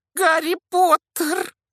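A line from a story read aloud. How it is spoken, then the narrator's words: Shrill exclamation. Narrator (Russian): Пронзительным голосом воскликнул неожиданный гость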